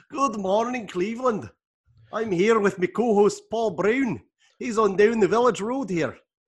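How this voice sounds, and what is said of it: Put-on Scottish accent. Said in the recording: “you want me to do it with a Scottish accent?”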